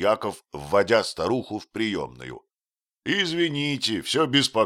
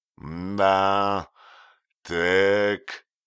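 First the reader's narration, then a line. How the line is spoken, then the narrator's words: Slow, then a sigh. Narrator (Russian): медленно проговорил фельдшер и вздохнул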